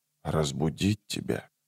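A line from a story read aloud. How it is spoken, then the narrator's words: Whisper. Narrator (Russian): прошептал он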